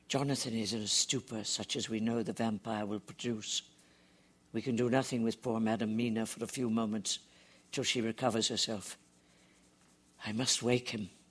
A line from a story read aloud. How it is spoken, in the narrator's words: Van Helsing whispered